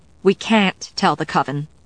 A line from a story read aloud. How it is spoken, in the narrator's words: Sarah said firmly